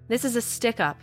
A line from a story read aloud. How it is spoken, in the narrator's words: they barked